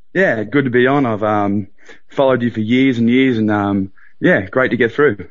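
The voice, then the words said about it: Australian accent. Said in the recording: “Sounds Aussie to me. ... Very Aussie.”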